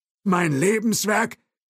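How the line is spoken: Called out. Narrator (German): rief Thompson

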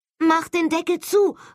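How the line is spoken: Calling. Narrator (German): rief Holly

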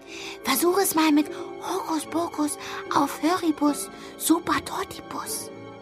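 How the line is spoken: Whispering in ear. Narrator (German): flüsterte ihr ins Ohr

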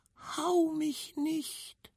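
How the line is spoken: Tiny squeaky pleading voice. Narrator (German): hörte ein fiepsfeines Stimmchen flehentlich bitten

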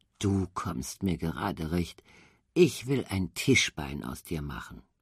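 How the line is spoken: Cheerful muttering to himself. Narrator (German): Er wurde ganz heiter, brummte vor sich hin

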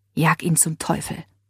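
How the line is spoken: Whispered to her. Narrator (German): flüsterte Leila ihr zu

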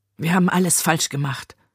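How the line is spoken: Murmured. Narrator (German): murmelte sie

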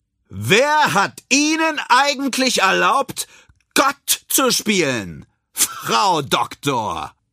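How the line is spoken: Loud call. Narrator (German): So laut, dass es alle hören können, ruft er

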